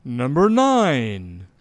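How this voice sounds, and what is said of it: Announcer voice. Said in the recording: “Mr. Announcer. ... In my best voice.”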